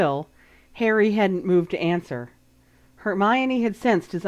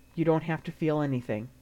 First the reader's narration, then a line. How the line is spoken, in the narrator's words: she said quietly